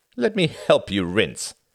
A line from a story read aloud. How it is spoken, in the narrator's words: he laughed